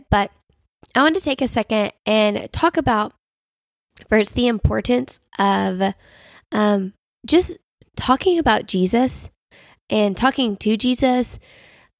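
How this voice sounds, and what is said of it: Congested, nasal voice. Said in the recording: “sinus infection ... get stopped up ... sound like I'm like pinching my nose when I talk”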